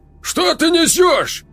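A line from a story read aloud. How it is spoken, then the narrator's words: Roaring. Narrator (Russian): Взревел Аяр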